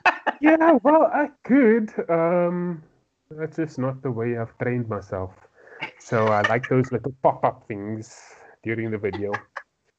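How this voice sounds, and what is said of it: South African accent. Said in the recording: “the accent, South African accent, that can get tedious after a while”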